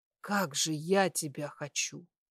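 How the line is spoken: Muffled growl. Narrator (Russian): прорычала я, уткнувшись ей в грудь

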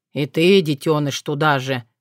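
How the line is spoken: Sighed. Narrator (Russian): вздохнул Лёлик

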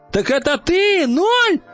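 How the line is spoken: Shouted. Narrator (Russian): закричала она

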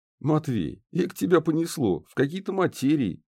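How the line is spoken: Giggling. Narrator (Russian): хихикнул Ларс

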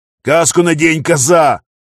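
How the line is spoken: Roared. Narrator (Russian): взревел пограничник

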